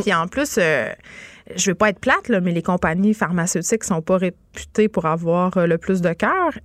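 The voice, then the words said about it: Regional Quebec French accent. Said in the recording (French): “je vais parler avec mon accent de la baie”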